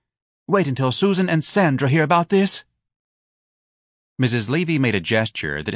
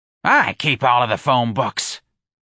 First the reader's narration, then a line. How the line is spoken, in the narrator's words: Miss Trixie snapped